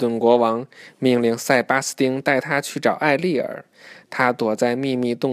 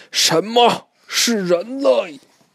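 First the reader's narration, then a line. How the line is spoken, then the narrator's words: Angry roar. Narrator (Chinese): 川顿国王听完以后，愤怒地大吼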